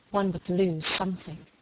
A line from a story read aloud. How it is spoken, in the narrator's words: murmured Helen, apparently to herself